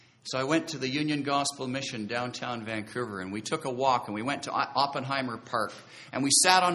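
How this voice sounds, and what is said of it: Usual voice. Nothing is said of it.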